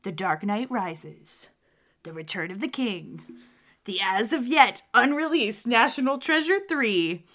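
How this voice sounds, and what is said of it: Dramatic movie trailer announcer voice. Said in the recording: “movie announcer voice”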